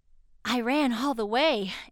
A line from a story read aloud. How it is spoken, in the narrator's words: Andrew panted